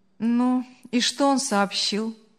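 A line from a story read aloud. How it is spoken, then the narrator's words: Indifferent question. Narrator (Russian): безразличным голосом спросил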